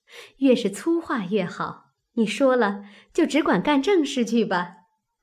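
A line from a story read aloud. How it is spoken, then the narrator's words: Crowd laughing. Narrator (Chinese): 众人都笑道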